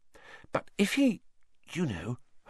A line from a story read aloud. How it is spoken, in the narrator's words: Hermione dropped her voice, glancing nervously around